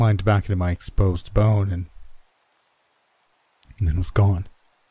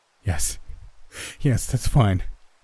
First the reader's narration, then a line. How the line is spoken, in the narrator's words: I choked out, sobbing